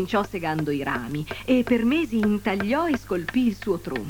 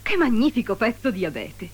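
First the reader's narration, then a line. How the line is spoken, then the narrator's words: Exclaimed. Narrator (Italian): esclamò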